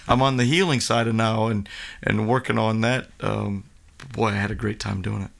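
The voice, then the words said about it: Slightly worn, strained voice. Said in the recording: “If you can hear it in my voice a little bit, I sang it all out”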